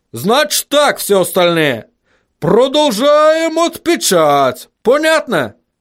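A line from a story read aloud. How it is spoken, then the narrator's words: Shout. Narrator (Russian): крикнул он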